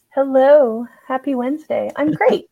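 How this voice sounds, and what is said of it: Polished radio announcer voice. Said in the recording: “you turn on your radio voice”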